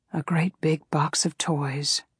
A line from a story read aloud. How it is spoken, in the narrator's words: Suddy whispered